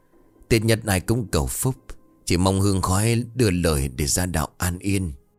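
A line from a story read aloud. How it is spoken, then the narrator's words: Soft unhurried woman's voice. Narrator (Vietnamese): Bà bé khẽ gần giọng thong thả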